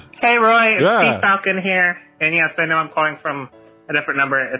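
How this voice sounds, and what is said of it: Very loud voice. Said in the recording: “your voice is really loud”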